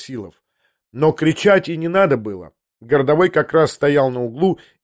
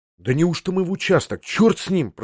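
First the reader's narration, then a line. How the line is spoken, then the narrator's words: Whisper. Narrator (Russian): прошептал я ему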